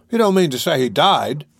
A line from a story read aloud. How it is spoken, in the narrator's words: cried Mr